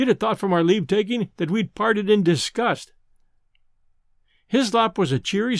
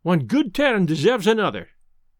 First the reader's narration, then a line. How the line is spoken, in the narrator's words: he grunted something about